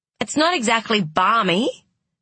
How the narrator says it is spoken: snapped Tess

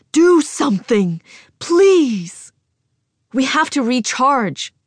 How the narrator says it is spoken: Chief Strategist Zhuge yells hoarsely

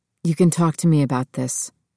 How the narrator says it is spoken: he said, his voice low and losing all pretense

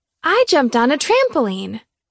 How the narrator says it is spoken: she said excitedly after she swallowed a mouthful of rice

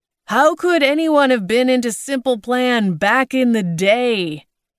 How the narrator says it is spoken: he asked no one loudly

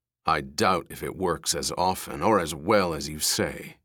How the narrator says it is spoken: he said thickly

